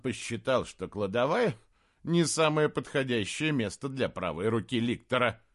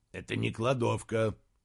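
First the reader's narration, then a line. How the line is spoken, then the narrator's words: Grumbling. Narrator (Russian): проворчал Риммер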